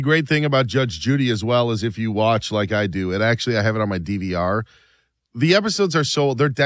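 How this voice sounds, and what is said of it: Usual voice. Nothing is said of it.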